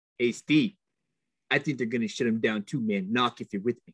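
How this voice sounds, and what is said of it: Imitates another person's voice. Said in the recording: “You're trying to be Gruden there? ... That's my Gruden impersonation. Was it bad?”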